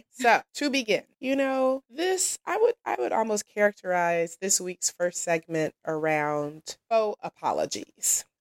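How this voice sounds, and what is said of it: Cracking, strained voice. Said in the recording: “my voice is cracking”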